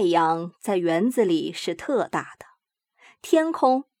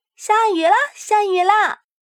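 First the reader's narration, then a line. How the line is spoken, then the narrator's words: Straining, loud shout. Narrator (Chinese): 拼尽了力气，大喊着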